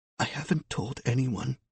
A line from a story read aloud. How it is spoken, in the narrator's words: she whispered